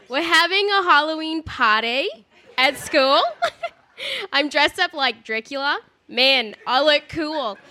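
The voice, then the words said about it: Put-on Australian accent. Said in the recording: “I'm going to do this in Australian accent to make it a little more interesting”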